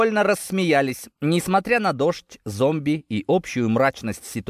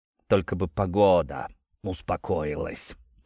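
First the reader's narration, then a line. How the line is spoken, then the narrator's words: Grumbled. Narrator (Russian): проворчал Степаныч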